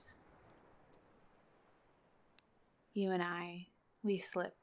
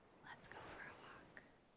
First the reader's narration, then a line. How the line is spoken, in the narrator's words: whispered